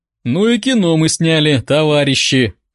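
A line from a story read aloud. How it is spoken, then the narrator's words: Sincere laughing. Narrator (Russian): Первым нарушил молчание Алексей, искренне хохотнув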